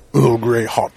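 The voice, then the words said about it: Impression of Captain Picard. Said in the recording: “my John Picard imitation”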